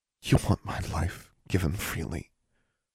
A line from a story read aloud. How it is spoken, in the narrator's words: Her voice was barely a whisper